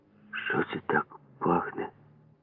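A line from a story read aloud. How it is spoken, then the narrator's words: Quiet question. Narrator (Ukrainian): тихо спитав мене Ява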